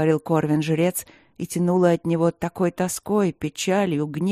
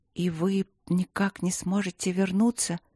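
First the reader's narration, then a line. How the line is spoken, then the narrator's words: Timid mutter. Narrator (Russian): робко пробормотала Алина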